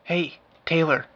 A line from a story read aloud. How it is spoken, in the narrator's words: hissed the words